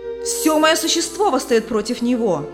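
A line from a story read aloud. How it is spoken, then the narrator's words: Hostile shout. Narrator (Russian): крикнул враждебный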